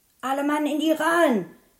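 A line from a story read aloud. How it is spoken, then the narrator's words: Captain calling out. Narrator (German): rief der Kapitän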